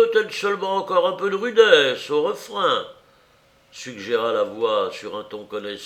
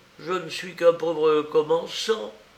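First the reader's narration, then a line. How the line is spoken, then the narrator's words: Pitiful murmur. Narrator (French): murmura le pauvre Harker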